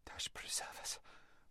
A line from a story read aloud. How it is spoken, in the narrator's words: whispered Lazareline